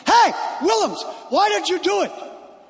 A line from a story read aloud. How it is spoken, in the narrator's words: Somebody from the crowd yells